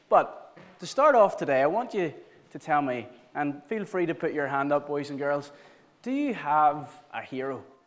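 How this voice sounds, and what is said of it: Flat, monotone, tired voice. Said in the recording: “I apologize if I'm a little bit monotone today. We did it, what was it, Peter, 22 times?”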